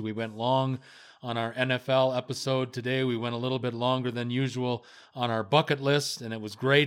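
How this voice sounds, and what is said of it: Strained, hoarse voice. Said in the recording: “I'm about to lose my voice,”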